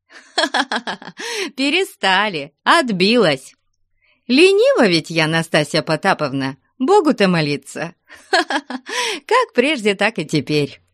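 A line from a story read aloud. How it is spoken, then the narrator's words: Laughing. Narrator (Russian): смеялась Фленушка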